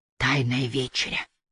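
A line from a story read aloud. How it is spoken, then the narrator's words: Whisper. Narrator (Russian): шепнул Аллейн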